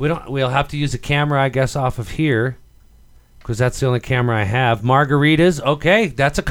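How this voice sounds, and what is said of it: Usual voice. Nothing is said of it.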